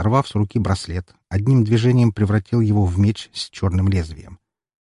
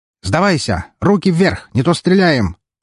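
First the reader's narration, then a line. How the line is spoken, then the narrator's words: Yelling in perfect Russian. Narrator (Russian): заорал лидер на чистейшем русском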